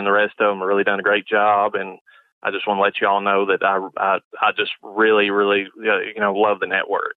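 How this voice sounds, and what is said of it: Southern US accent. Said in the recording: “He's a Southern boy... He's got that whole accent going on. He's a good old boy.”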